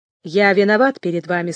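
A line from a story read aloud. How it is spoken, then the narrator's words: Plain. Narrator (Russian): сказал Толстопят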